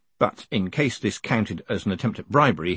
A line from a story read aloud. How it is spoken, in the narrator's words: he added sternly